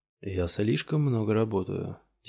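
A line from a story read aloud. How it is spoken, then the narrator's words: Quiet. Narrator (Russian): тихо сказал Флавин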